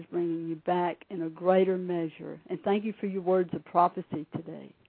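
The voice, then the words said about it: Southern US accent. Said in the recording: “you can probably hear from my accent, I'm originally from Mississippi... I hear that southern thing in there.”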